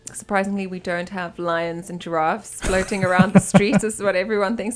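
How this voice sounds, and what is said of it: South African accent. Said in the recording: “your accent ... Where's your accent from? ... So I'm from South Africa.”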